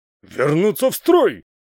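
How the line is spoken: Angry bark. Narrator (Russian): злобно рявкнул

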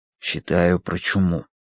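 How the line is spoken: Whispered reply. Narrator (Russian): ответил Данворти шепотом

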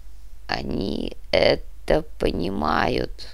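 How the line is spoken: Prince grumbling curtly. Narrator (Russian): буркнул князь

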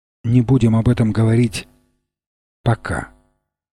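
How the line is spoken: Chivalrous tenderness. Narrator (Russian): сказал с чисто рыцарской нежностью

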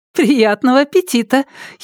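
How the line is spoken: Giggle turning serious. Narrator (Russian): хихикнули на том конце провода и тут же преисполнились серьёзности

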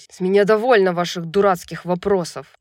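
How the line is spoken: Angel's bark. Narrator (Russian): рявкнул ангел

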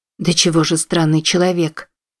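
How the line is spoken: Shivering mutter. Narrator (Russian): пробормотала Уилла, ежась как от холода

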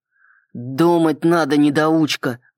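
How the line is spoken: Growled. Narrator (Russian): прорычал Салливан

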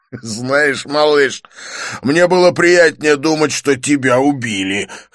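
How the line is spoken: Laughing. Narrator (Russian): хохотнул он

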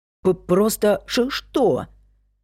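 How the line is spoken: Loud deliberate stutter. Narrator (Russian): Нарочно заикаясь, громко переспросил Майк

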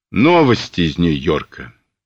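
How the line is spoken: Dejected announcement. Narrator (Russian): объявил он упавшим голосом

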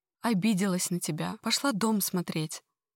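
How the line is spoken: Rapid chatter. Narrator (Russian): быстро тараторит

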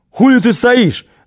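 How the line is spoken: Yelled. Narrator (Russian): заорал на меня

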